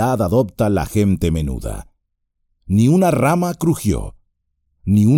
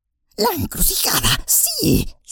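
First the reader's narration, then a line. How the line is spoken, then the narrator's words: Whisper. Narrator (Spanish): susurró Gollum, hablando por primera vez desde que salieran del escondite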